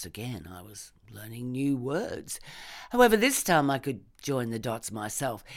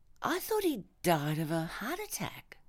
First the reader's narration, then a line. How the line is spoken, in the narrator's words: I said faintly